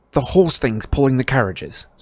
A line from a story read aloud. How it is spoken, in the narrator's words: said Harry impatiently